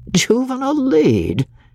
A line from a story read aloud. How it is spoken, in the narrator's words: he had exclaimed, unable to hide something of incredulity in his voice